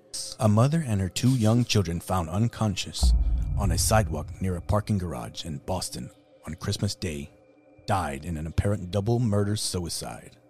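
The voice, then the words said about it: Batman character voice. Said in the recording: “I think your Batman voice would make me pay attention more. ... I'm going to read it in a Batman voice.”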